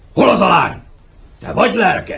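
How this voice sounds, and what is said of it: Gruff, clipped commanding voice. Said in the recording (Hungarian): “zordon hadvezér ... pattogó hangon beszél”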